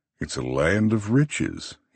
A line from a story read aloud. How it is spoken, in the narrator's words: he chuckles